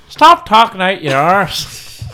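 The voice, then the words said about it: Put-on Irish accent. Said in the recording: “Irish... Let's start doing the Irish accent.”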